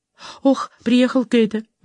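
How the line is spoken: Exclaiming. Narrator (Russian): воскликнула Фиби

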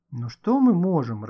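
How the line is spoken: Bewildered. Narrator (Russian): растерянно проговорил Гошка

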